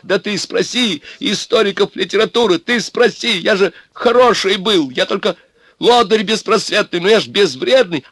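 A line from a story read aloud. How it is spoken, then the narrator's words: Straining desperate shout. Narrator (Russian): Обломов кричал ему, надрываясь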